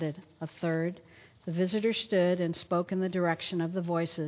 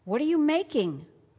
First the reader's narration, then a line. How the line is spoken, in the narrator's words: one shouted even louder